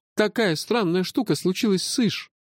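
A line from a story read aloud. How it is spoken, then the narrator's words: Sighing. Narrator (Russian): вздохнул Малда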